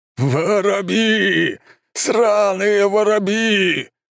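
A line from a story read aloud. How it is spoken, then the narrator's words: Anguished howl. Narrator (Russian): взвыл командующий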